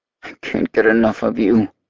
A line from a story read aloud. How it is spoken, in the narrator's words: growls